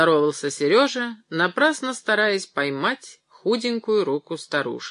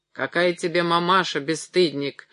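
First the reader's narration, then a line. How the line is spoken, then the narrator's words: Old woman grumbling. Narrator (Russian): ворчала старушка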